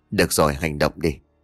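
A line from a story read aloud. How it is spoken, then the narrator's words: Whisper. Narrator (Vietnamese): Thỏ thì thầm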